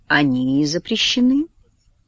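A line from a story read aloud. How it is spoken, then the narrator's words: Soft, Oxford English accent. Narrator (Russian): мягко говорит индус на своем оксфордском английском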